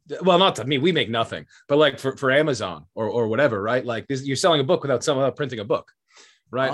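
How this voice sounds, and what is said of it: Boston accent. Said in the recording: “Am I detecting a Canadian accent of any kind? ... Boston.”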